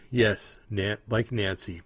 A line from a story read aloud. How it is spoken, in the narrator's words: Paul Pelosi said